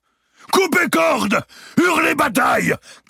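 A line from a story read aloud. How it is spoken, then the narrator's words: Shouted. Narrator (French): cria Clermont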